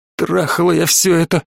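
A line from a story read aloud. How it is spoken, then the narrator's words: Moaning. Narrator (Russian): простонала она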